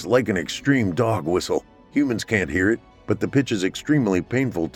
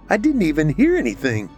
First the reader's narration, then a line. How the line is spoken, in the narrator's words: Trina said with a shocked laugh